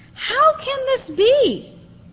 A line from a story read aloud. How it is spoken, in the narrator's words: exclaimed